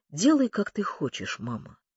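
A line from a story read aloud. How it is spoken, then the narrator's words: Calm, even voice. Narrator (Russian): он вдруг спокойно и ровно проговорил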